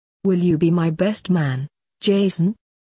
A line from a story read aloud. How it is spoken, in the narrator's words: he asked